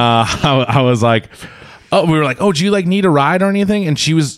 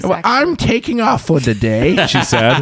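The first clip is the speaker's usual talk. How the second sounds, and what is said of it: Elderly woman granny voice. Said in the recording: “do a granny voice? ... I'd love to hear your granny voice. ... That was good.”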